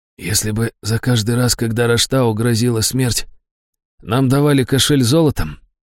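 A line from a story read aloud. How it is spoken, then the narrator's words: Hoarse, recovering. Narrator (Russian): хрипло проговорил Брэмстон, приходя в себя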